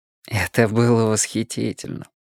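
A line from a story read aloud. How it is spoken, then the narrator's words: Sighed. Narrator (Russian): вздохнул Слоттер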